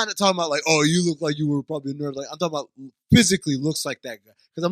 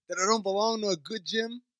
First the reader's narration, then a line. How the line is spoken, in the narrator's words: I laughed